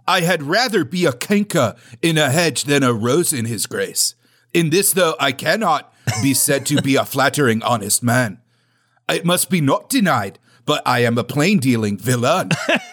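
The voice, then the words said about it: Keanu Reeves with English accent. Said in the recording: “English accent Keanu Reeves”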